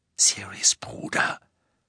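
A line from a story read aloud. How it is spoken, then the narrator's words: Whisper. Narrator (German): flüsterte sie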